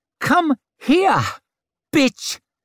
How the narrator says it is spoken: he said in that piping voice

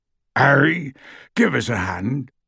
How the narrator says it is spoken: called Hagrid hoarsely from the door

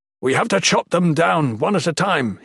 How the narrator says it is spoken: yelled

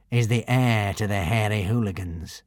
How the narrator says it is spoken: said Alvin grimly

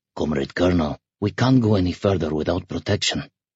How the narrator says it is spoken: muttered apologetically

